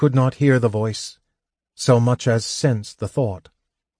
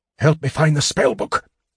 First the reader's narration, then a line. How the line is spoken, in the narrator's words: hissed